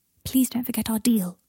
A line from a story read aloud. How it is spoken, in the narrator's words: he whispered